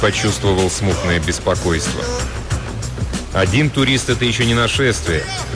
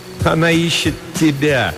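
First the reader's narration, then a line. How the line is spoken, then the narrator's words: Laughing, teasing. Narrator (Russian): Харра засмеялась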